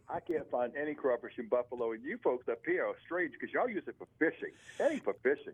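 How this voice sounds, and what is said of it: Southern Louisiana twang. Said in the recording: “throwing that southern Louisiana twang in there”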